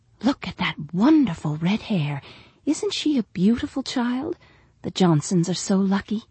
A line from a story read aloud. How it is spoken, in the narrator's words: a mother nearby whispered